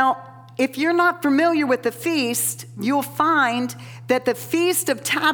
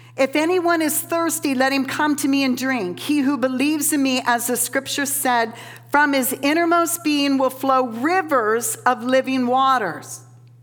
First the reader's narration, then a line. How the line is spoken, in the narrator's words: Jesus cries out